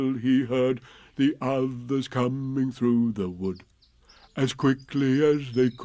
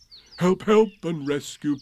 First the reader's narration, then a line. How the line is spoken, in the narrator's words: Piglet cried